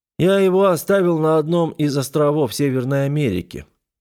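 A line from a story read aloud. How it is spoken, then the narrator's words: Lazy mimicking reply. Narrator (Russian): подражая мне, лениво ответил умник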